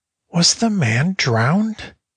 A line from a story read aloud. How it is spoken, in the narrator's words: cried Hans